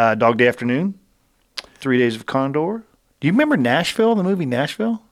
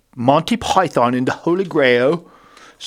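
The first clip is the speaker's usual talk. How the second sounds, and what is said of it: Put-on accent. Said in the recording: “Sorry for that accent”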